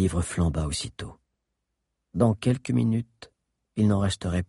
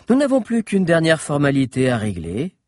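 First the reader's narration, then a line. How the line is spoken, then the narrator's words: Almost joyful voice. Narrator (French): continua Augénor d'une voix presque joyeuse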